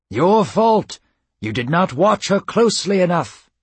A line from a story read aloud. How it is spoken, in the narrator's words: cried Apollo